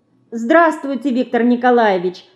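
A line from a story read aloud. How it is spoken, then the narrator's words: Shy, joyful mouse greeting. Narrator (Russian): Смущенно и радостно здоровается мышка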